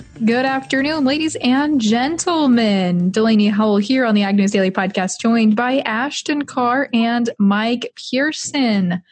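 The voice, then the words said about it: Excited, upbeat tone. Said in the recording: “You sound pretty excited”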